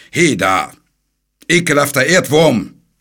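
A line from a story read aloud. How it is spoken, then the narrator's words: Knight roaring. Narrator (German): brüllte der Ritter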